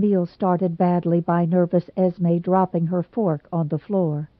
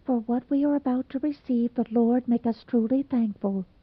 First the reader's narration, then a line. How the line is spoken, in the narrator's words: Cyrus, blushing beet red, murmured almost inaudibly